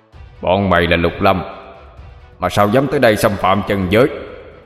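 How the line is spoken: Barking shout. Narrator (Vietnamese): Tên cục đầu quát lên

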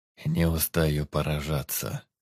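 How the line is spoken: Muttering. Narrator (Russian): пробормотал Тир Велдон

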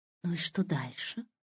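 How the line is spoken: Breathy exhale. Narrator (Russian): выдохнула Аня

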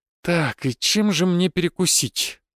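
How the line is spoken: Muttered to himself. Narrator (Russian): буркнул себе под нос

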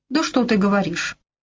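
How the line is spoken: Snorting. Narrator (Russian): Дэвид фыркнул

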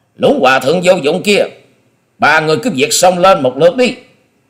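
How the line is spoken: Loud shout. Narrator (Vietnamese): Long Điểu Kiếm Khách quát to

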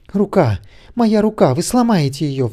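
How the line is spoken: Pleading. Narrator (Russian): взмолилась Нэнси

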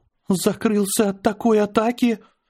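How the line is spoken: Trembling voice. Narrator (Russian): дрожащим голосом сказала Аня

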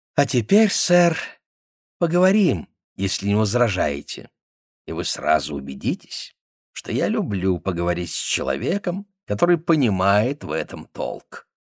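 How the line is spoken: Satisfied sigh, then speech. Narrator (Russian): Удовлетворенно вздохнув, он сказал

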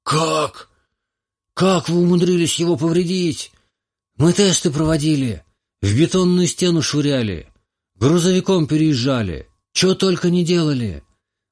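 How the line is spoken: Young man exclaiming. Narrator (Russian): воскликнул парень

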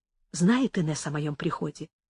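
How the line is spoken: Quiet question. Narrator (Russian): спросила тихонько Амаранта

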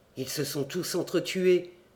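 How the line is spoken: Murmuring. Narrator (French): murmurai-je

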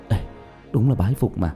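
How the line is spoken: Whispered. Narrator (Vietnamese): Lý Vĩ thì thào phun ra hai chữ

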